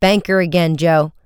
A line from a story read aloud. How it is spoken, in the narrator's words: Frank cried angrily